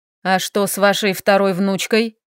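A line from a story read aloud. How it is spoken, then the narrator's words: Rude male question. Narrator (Russian): грубо поинтересовался мужчина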